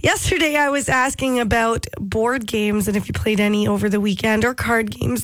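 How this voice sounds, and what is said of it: Stuffy, congested voice with a cold. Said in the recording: “you might notice that I feel a little bit stuffy... my voice is a little bit better than yesterday. I did lose my voice over the weekend... now full-blown cold”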